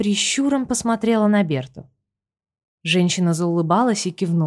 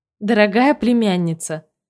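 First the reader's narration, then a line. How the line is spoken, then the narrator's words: Joyful singsong from behind. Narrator (Russian): Радостно пропели за спиной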